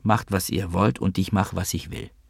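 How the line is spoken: Quiet nauseated child. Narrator (German): Um sich von ihrem Anblick nicht zu übergeben, sagte der kleine Vova leise

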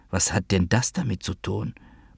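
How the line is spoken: Quiet, to oneself. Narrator (German): sagte leise zu mir selbst

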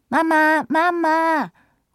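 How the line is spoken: Called. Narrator (German): ruft Thea

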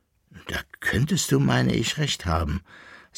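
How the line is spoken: Thoughtful, relieved sigh. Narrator (German): sagte nachdenklich und mit einem tiefen Seufzer der Erleichterung der Koppelbär

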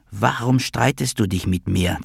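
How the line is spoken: Hissed. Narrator (German): zischte sie

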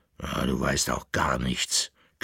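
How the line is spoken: Growling farm dog. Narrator (German): knurrte der Bauernhund

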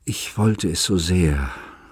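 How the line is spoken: Groaning. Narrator (German): stöhnte

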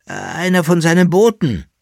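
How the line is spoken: Emperor speaking with soft groan. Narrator (German): sagte der Kaiser mit einem leisen Stöhnen

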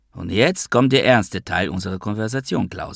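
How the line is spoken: Plain. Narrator (German): sagte ich

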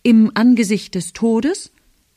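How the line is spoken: Loud. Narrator (German): Diesmal laut

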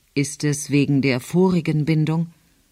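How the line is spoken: Calm friendly question. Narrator (German): Jules fragte sie ruhig und freundlich

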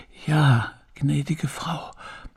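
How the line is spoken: Old housekeeper, quiet reply. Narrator (German): erwiderte die alte Haushälterin leise

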